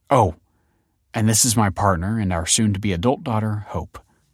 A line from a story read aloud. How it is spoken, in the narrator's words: said Damien